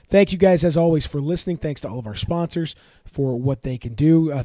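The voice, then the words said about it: Slightly ragged, tired voice. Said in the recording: “it's a late night, so forgive me if my voice is a little ragged”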